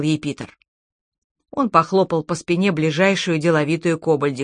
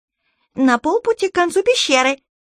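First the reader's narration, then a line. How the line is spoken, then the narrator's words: Squeaky creature voice. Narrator (Russian): пискнула кобальдиха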